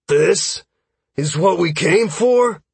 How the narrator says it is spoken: Trace gasped, terror intermixing with disbelief

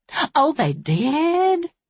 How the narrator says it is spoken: Aunt Hetty Little exclaimed

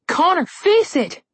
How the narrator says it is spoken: Alex yelled

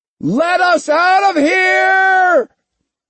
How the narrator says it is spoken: The cacophony of ethereal wails and alien voices blended together in a chorus

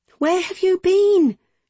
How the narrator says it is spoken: wanted to screech

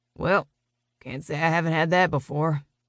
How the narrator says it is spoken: Bill mutters back

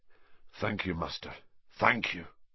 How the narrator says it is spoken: murmured McNair

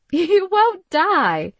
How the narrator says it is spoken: Autumn laughed

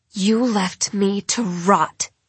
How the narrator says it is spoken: she hisses

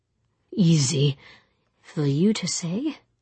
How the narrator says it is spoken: Will gasped

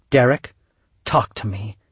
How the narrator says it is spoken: she said, her voice soft but unyielding

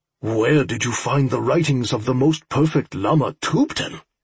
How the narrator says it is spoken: Pema said eagerly

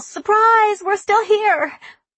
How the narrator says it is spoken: we can all jump up and yell

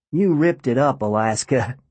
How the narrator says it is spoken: Takumi says, laughing

